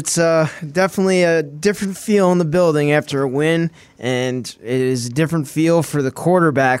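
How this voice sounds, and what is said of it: Hoarse voice. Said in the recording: “what's up with your voice? ... My voice is a little screwed up right now. ... it's a little hoarse ... I was screaming and yelling.”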